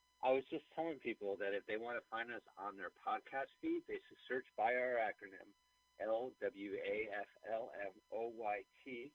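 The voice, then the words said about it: Telephone-quality voice. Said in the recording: “this uh, episode is being recorded, as you can tell by my telephone voice.”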